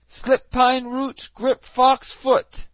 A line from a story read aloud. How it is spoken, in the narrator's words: Reynard was now in a fix, but he was not to be outwitted, and he cried